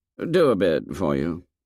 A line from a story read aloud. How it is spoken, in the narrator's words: muttered Jack